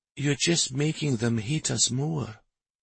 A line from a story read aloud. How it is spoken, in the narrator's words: Shari whispered